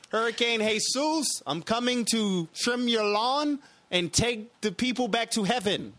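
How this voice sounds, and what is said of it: Put-on unidentified accent. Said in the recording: “I don't know what kind of accent that was.”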